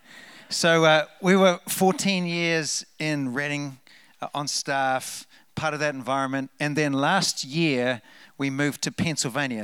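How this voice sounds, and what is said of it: New Zealand accent. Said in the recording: “As you can tell from the accent, we're from New Zealand”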